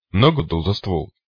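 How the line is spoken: Snorting grunt. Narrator (Russian): Я хмыкнул

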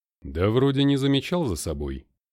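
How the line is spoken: Calm. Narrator (Russian): спокойно сказал Ахиллес

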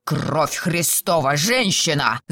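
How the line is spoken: Growl. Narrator (Russian): зарычал он

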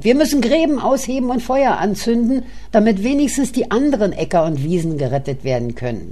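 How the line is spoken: Shouting. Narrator (German): schrie mein Freund

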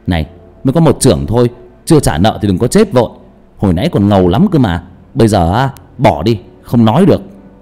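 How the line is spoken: Shouting. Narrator (Vietnamese): Thông quát

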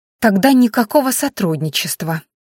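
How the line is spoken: Soft, tender, smiling girl. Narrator (Russian): мягко, почти нежно улыбнулась девушка

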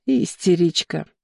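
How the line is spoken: Giggling. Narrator (Russian): хихикала я

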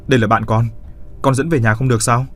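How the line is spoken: Irritated snapping. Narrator (Vietnamese): Hắn mới gắt lên

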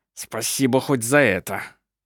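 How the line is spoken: Through clenched teeth. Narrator (Russian): сквозь зубы процедил Ленцман

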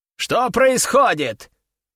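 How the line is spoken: Loud repetition. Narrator (Russian): громко повторил

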